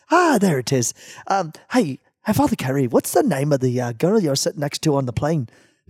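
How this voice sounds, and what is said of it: Put-on stereotypical Irish accent. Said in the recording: “Let me see if I can get my Lucky Charms accent.”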